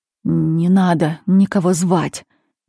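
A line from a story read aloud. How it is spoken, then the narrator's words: Strange hoarse voice. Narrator (Russian): незнакомым хриплым голосом заговорил Феликс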